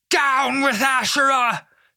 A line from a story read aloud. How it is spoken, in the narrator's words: Josiah hollered